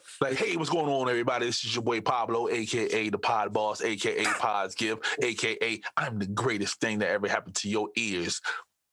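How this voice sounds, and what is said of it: Hyped-up radio DJ style voice. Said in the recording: “y'all say I sound like a rapper ... Not a rapper, more like a DJ, like we're a radio DJ.”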